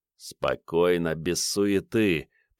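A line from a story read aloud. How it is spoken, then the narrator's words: Through gritted teeth. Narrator (Russian): процедил Ванька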